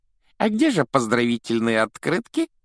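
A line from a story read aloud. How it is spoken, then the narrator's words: Giggling. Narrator (Russian): хихикнул Дадли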